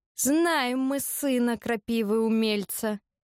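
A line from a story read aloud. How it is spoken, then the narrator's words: Through clenched teeth. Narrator (Russian): процедил толстяк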